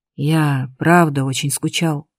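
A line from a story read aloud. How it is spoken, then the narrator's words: Breathy, close. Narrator (Russian): выдохнул он в мою шею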